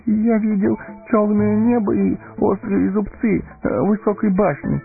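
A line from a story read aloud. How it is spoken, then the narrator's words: Faltering babble. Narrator (Russian): пролепетал он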